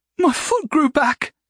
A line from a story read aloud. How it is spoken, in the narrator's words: The god laughed